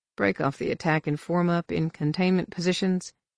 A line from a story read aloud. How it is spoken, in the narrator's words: said calmly